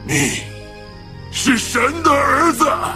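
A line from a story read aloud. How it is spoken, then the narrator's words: Shouting. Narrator (Chinese): 鬼喊着说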